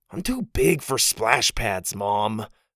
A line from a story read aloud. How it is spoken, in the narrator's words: Porter groaned